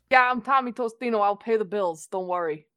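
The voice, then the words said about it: Weird put-on character accent. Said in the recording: “My accent got weird.”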